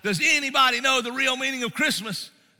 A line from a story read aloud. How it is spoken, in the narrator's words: got frustrated and he exclaimed, he shouted out